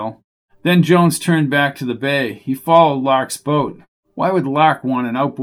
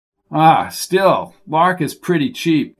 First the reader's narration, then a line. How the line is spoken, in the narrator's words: Captain chuckled